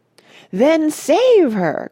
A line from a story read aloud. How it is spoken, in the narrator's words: cried Mrs